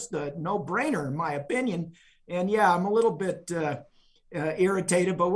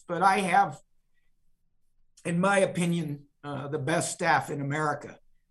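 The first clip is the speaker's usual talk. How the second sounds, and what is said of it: Emotional, choked-up voice. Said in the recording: “I'm going to get a little emotional”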